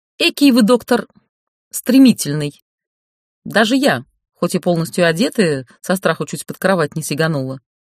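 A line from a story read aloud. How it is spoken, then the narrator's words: Indignant. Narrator (Russian): возмущенно заявила Ольга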